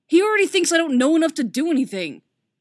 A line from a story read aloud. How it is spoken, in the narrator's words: Superboy snaps defensively